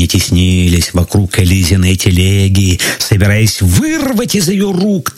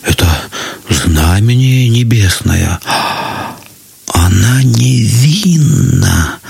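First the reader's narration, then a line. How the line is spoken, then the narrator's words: Many whispering. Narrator (Russian): зашептали многие, но не смели сказать этого вслух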